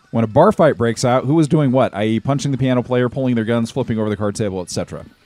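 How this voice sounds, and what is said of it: Hoarse sore-throat voice. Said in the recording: “I've got a sore throat today.”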